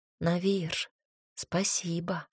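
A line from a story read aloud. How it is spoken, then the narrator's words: Gentle, smiling, repeated. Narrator (Russian): Девушка мягко улыбнулась и сказала еще раз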